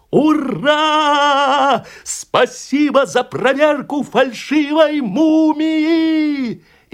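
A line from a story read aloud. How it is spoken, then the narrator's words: Shouted by the crowd. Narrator (Russian): публика крикнула председателю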